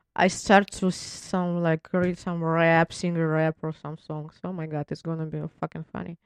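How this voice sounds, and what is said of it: Non-native English accent. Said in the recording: “can you imagine me with my accent accent?”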